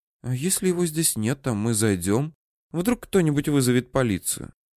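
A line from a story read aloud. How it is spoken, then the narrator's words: Hushed question. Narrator (Russian): Руся вполголоса спросила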